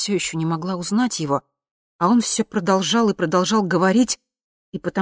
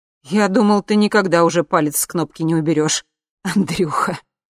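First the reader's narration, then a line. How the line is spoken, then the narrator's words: Laughing. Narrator (Russian): засмеялся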